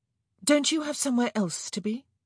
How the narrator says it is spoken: Kate blurted out

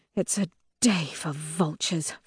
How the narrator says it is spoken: Victra mutters

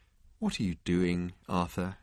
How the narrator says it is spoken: he asked quietly

